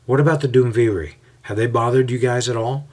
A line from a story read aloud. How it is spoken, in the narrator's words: Paul chuckles at this and asks